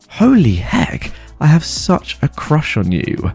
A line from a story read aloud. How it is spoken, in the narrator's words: in the most lustful voice I've ever heard